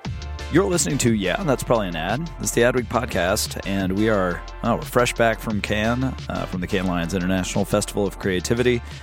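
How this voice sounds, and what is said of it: Slightly hoarse voice. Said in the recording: “I'm a little hoarse. ... I had lost like most of my range of speaking voice, so I had to just lower my voice”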